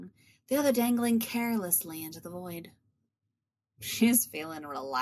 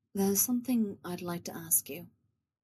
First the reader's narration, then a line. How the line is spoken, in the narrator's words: she says softly